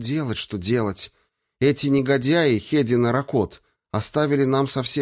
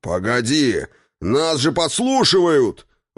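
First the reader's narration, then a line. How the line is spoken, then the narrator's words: Roaring male voice. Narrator (Russian): взревел мужской голос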